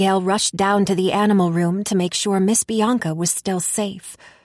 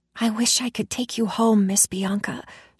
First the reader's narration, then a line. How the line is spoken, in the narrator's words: whispered